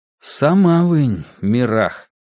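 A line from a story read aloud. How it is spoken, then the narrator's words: Slow reply. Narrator (Russian): ответил я медленно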